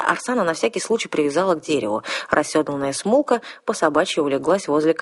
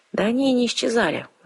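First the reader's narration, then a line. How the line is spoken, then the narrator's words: Sighing. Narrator (Russian): вздохнула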